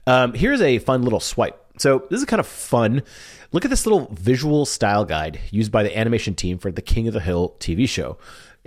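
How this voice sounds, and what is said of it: Sniffly, slightly congested voice. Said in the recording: “Feeling a little sniffly, so if my voice sounds weird”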